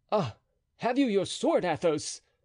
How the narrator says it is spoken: cried D'Artagnan

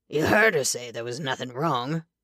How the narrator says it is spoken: said thickly

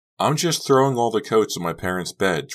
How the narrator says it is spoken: Trish said, shouting

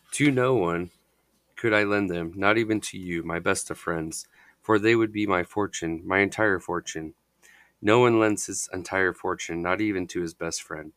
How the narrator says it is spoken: responded gloomily

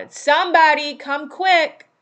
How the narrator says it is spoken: Joe shouted

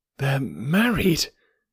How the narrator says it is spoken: I gasped

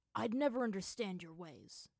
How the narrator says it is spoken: Zuko said coldly

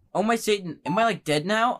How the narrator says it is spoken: I gasped

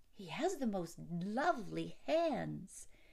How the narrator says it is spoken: the innkeeper's wife exclaimed

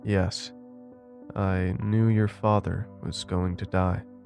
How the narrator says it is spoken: said in a sad tone, as if it didn't want me to hear the words

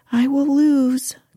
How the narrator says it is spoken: cried he

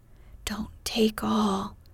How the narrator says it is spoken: whispered her neighbor, a young lady of great presence of mind

